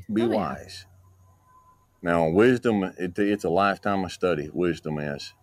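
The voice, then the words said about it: Strong regional accent. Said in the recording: “in that exact voice too, right? ... Such a great accent.”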